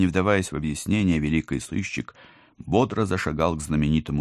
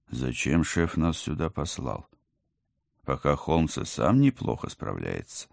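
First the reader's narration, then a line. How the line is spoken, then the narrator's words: Muttered. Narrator (Russian): пробормотал командор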